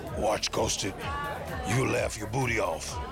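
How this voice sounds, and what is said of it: Evil voice, like Mr. T. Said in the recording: “in your best evil voice ... I turn into Mr. T all of a sudden.”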